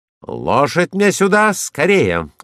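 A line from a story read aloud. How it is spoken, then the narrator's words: Shouted. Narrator (Russian): крикнул я Франку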